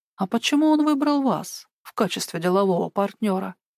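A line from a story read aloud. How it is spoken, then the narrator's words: Ingratiating, smiling woman. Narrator (Russian): Вкрадчиво улыбнулась красивая женщина-капитан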